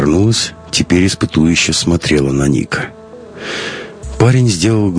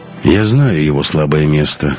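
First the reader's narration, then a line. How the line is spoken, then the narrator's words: Hoarse. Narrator (Russian): хрипло сказал он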